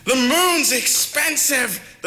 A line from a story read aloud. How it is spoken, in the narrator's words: the people yelled back at her